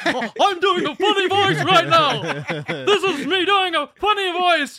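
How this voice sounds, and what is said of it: Funny put-on voice. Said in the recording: “doing a funny voice”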